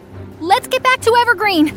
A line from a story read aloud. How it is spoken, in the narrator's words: I yelled